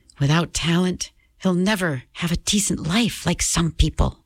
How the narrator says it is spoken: Mom whispered

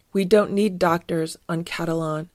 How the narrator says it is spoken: said Fieldgar

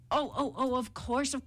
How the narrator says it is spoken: cried the jackal, pretending to tremble with fright

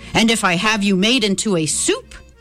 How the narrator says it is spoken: the mayor thundered

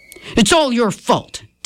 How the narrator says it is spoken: Dad shouted at Mom

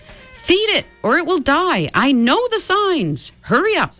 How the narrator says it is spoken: The cock-robin shouted

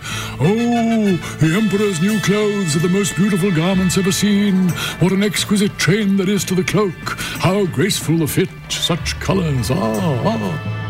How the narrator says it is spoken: Everyone in the streets and all those watching from their windows exclaimed

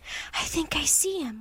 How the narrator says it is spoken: whispered Annie

